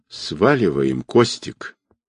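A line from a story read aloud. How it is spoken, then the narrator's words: Frightened stocky man. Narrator (Russian): испуганно проговорил коренастый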